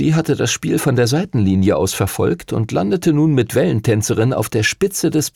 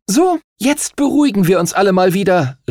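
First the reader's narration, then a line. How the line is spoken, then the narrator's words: Call out. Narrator (German): rief die Kapitänin der Himmelsstürmer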